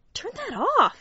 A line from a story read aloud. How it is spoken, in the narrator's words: hissed